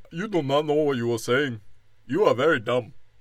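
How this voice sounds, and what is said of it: Put-on Ethiopian accent. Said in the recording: “black dude with his Ethiopian ... I don't know why I don't keep doing the accent.”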